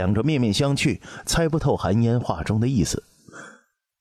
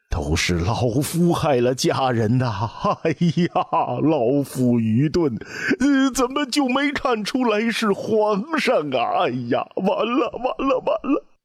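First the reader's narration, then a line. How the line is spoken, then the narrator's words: Old man wailing. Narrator (Chinese): 老者的嚎哭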